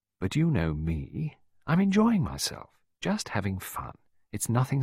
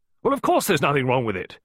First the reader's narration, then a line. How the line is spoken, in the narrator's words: Miss Peake barked